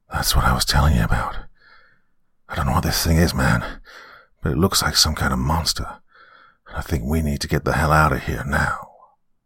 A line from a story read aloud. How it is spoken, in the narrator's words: Warily, Jacob whispered